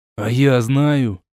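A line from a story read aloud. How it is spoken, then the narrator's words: Angry. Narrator (Russian): зло сказал коренастый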